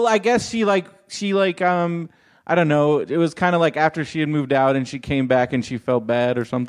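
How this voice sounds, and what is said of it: Usual voice. Nothing is said of it.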